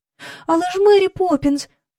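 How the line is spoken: Cry. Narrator (Ukrainian): скрикнула Джейн

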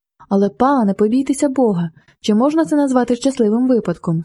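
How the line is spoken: Cried out. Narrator (Ukrainian): скрикнула Розалія

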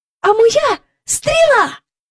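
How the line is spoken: Shouting. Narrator (Ukrainian): крикнула Джейн

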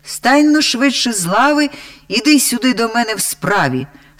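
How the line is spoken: Loud echoing shout. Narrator (Ukrainian): закричав на бабу так голосно, що аж луна у печері відбилася

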